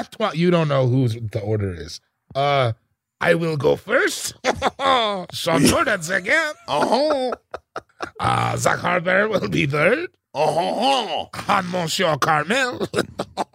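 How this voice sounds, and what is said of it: Put-on French accent. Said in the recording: “In your French accent, please.”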